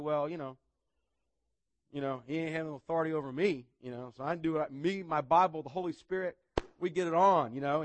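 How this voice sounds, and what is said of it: Weak put-on redneck accent. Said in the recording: “that's kind of a redneck accent. And I'm not a good redneck”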